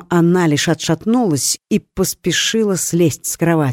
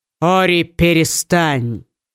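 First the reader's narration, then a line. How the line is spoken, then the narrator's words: Raised voice. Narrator (Russian): повысил голос Литер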